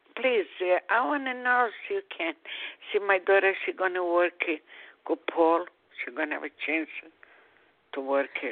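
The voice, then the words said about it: Strong foreign accent. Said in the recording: “Your accent is very strong.”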